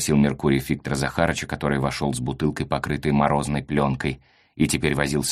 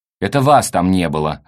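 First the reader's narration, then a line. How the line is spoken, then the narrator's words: Snapped back. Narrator (Russian): огрызнулась Софья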